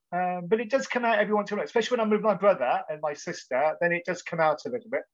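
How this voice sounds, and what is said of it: English accent. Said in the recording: “you have a very English accent”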